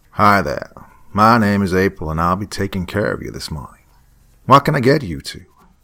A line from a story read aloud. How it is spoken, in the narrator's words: she said in a slight southern accent